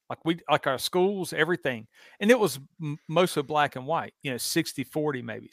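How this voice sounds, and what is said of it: Southern US accent. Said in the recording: “You can hear from my accent that obviously I didn't grow up in Chicago, New York ... where I grew up in the South”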